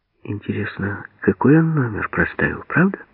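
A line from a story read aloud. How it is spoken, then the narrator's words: Whisper. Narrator (Russian): шепнула Лена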